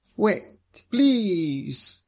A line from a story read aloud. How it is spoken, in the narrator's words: he cried